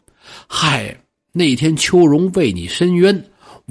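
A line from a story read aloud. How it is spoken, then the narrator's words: Long sigh. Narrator (Chinese): 小谢长叹一声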